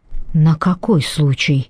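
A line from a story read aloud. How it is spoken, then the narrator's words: Hoarse breathless question. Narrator (Russian): хрипло дыша спросил Зейн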